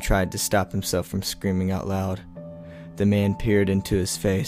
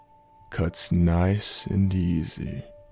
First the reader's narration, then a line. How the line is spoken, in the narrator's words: he said slowly